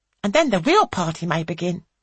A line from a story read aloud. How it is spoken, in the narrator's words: says Eleanor cheerfully